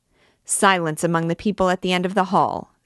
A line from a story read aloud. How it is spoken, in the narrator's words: said the usher, sharply